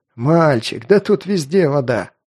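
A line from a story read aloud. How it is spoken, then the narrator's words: Chuckling tramp. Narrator (Russian): хохотнул бродяга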